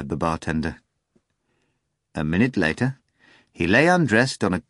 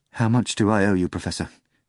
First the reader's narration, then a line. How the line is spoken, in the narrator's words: asked the bartender, in a tender, trembling voice